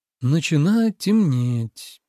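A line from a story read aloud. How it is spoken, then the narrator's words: Drawl then whistle. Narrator (Russian): протянул он и присвистнул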